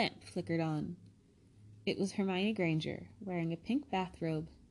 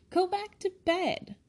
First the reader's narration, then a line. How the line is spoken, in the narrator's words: said Ron furiously